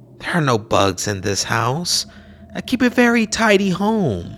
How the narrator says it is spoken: replied kindly

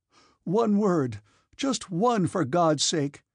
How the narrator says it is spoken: cried Anatole

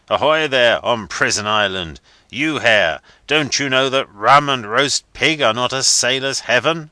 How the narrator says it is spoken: the captain's roar

